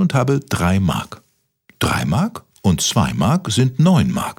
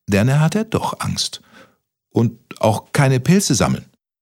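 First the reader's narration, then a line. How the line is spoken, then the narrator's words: Stammering. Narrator (German): stotterte Kaspermütze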